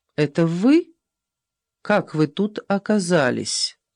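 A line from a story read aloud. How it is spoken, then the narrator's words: Surprisingly calm. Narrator (Russian): Голос ее звучал на удивление спокойно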